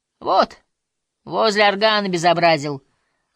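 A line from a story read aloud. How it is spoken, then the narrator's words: Stern remark, clergyman. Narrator (Russian): заметила сутана строго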